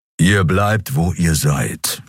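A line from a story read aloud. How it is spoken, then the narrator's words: Growled. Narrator (German): knurrte er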